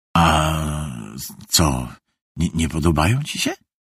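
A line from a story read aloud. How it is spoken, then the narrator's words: Provocative mutter. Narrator (Polish): zaczepnie mruknął Konecki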